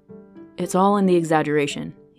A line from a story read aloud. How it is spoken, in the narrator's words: he said